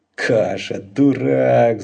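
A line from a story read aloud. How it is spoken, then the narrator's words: Growl. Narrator (Russian): зарычал Лабан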